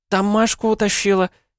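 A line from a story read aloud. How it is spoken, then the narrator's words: Squeak. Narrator (Russian): пискнула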